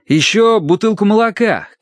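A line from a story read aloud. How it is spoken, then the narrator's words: Shouted. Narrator (Russian): крикнул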